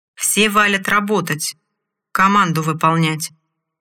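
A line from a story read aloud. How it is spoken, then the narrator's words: Commanding shout. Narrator (Russian): командным голосом выкрикнул орк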